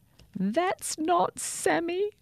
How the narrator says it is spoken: cried Sophia

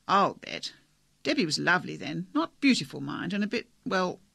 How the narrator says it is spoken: he laughed

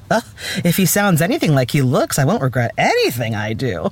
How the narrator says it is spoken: Julia Warwick purred

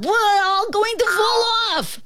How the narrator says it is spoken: screamed the ant

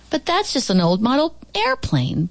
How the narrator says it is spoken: Booth Schiffer called out

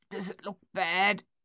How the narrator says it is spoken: Thaddeus asked, his voice thick and halting

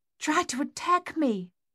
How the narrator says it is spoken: their mother gasped

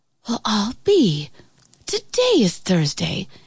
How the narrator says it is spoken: Annie whispered

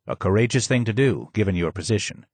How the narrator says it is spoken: he said

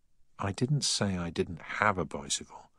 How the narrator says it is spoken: sighed Deakins

